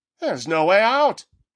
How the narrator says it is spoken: Haggerty cried

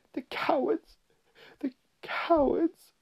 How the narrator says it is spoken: sobbed Susan

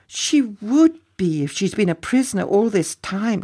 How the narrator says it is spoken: cried

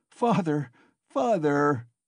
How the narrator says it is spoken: he cried

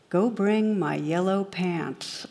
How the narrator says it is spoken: the captain calmly replies

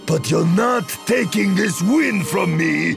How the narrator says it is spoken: He screamed as he hurled himself at Gela

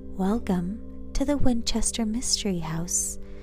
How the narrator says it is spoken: the woman said in a low, delicate voice

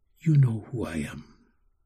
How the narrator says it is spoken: He answered softly

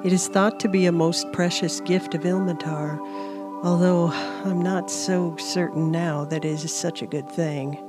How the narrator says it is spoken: EJ mumbled

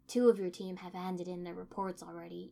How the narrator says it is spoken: Inoichi said

